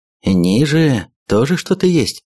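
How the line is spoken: Plain. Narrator (Russian): спросил у него

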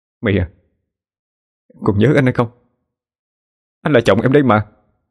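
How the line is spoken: Trembling voice. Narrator (Vietnamese): cậu dừng lại run run mà nói

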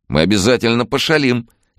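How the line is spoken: Cheerful agreement. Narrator (Russian): весело согласился тот

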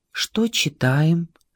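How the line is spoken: Quiet question. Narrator (Russian): тихонько спросил Василий Константинович

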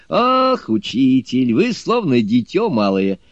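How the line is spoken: Laughing. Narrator (Russian): рассмеявшись, сказал Суню-кун

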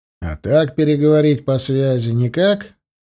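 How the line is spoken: Lazy question. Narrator (Russian): лениво спросил я

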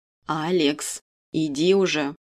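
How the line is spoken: Stern. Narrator (Russian): строго указывает мне на дверь тетя Валя

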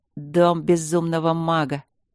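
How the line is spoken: Grim, creaky young voice. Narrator (Russian): мрачно проскрипел юношеский голос ему в ухо

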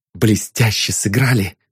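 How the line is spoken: Whisper. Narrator (Russian): прошептал Ванзаров

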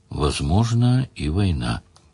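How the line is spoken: Quiet. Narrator (Russian): Ливерлин сказал тихо

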